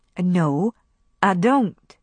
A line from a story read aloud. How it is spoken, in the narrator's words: said Melanie